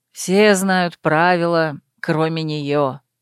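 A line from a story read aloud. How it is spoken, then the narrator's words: Tired mutter. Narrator (Russian): устало пробормотал любимый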